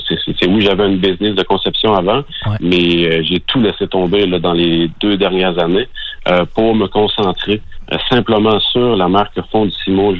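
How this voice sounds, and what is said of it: Beauce Quebec French accent. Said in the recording (French): “J'entends un accent beauceron.”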